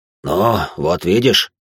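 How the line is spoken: Relieved sigh. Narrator (Russian): Он облегченно вздохнул

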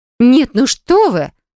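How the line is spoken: Indignant snort. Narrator (Russian): Возмущенно фыркает Юля

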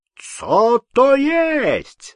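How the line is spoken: Shouting. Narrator (Russian): закричал поляк

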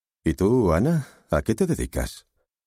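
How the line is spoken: Affected tone question. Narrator (Spanish): le preguntó con tono afectado

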